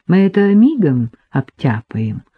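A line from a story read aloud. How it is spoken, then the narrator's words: Gentle. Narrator (Russian): ласково сказал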